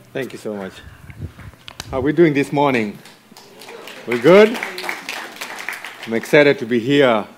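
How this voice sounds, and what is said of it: Kenyan English accent. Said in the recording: “my accent doesn't suggest that ... born and raised in a place called Matare, all the way in Africa, Nairobi, Kenya”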